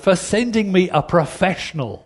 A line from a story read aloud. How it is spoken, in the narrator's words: shouted the woman